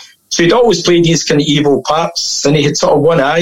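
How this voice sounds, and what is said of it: Usual voice. Nothing is said of it.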